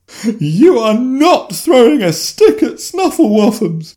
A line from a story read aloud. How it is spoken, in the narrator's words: Jennifer shrieked, sobbing even louder at such a thought